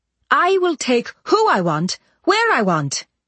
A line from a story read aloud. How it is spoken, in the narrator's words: Sheridan said, her voice rising